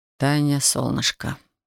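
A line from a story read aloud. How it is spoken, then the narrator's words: Muttering. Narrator (Russian): пробормотал он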